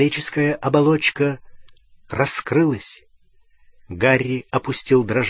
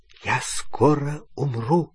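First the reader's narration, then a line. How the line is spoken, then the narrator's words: Whisper. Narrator (Russian): прошептал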